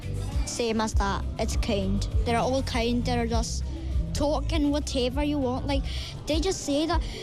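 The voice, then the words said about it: Scottish accent. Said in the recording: “you've got a very Scottish accent”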